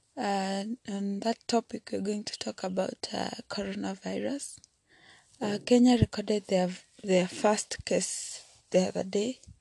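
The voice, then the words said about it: Sick, flu-affected voice. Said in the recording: “sorry about my voice. I have a little flu.”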